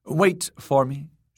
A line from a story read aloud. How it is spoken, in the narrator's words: told curtly